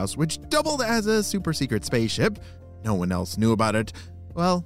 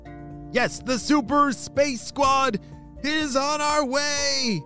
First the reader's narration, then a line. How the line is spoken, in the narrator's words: They shouted in unison